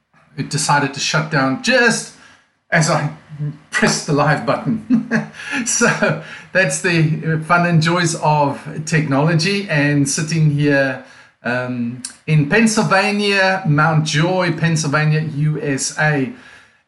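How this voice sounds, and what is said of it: South African accent. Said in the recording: “my accent is non-American. As you can hear, I'm actually from South Africa, from a place called Cape Town, South Africa”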